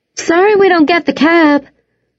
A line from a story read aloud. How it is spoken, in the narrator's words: shouted as they bounced down the highway